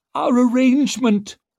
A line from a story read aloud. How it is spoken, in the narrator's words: pleaded Finry